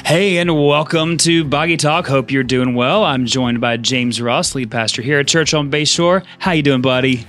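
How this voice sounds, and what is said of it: Unusually high, not-fully-recovered voice. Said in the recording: “I'm not 100% of my voice, but definitely way better than I was last week... I don't sound like a sick cow, more just like a calf now, because my voice is so high”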